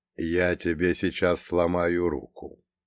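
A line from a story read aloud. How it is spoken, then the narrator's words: Completely calm, emotionless. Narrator (Russian): совершенно спокойно, без каких-либо эмоций, сообщил ирландцу Фреда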